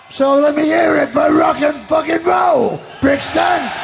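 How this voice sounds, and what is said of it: Shouting. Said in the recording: “Why am I shouting?”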